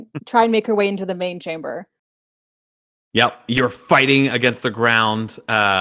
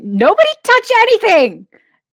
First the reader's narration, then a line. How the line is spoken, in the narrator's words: Tariki's going to scream